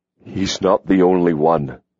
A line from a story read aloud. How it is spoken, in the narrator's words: Hawk said huskily